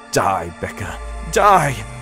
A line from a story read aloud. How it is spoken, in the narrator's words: I cried